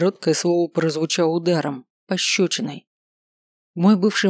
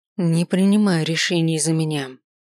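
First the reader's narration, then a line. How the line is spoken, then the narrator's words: Through gritted teeth. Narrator (Russian): процедил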